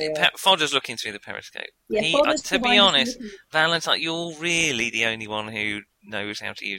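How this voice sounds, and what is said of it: Usual voice. Nothing is said of it.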